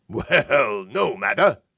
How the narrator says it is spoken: Source chuckled

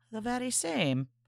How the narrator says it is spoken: now her voice had lowered to a whisper

